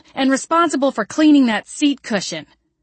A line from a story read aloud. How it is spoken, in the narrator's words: I yelled